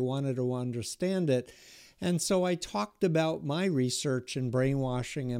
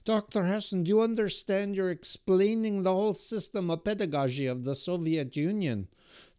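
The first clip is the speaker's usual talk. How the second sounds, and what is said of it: Imitated Russian accent in English. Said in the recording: “I'm not making a joke of their accent, but this is literally how they spoke in English”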